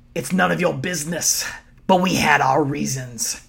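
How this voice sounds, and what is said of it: Imitates another person's voice. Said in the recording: “That was my Wade Barrett impression.”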